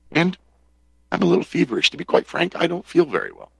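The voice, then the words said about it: Scratchy, sore-throated voice. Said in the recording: “my voice is a little scratchier than usual. I have a sore throat.”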